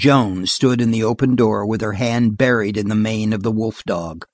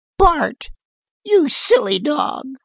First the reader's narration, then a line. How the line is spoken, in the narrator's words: cut a thin, small voice from outside